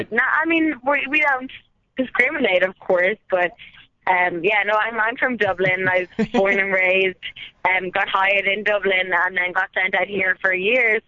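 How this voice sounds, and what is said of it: Irish accent. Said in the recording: “I'm noticing your accent. Did you grow up in Ireland?”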